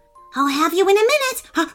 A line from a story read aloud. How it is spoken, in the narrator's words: barked Wolfie excitedly